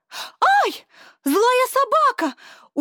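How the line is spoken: Agitated girl shouting, running away. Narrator (Russian): Убегая, крикнула девушка, и долго еще слышался ее взволнованный голос

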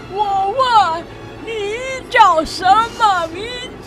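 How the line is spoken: Shouting in ear. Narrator (Chinese): 独角仙以为他没有听见，靠在他的耳朵边大喊

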